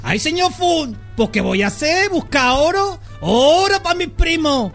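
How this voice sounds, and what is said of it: Exaggerated put-on accent. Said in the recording (Spanish): “que se me va el acento”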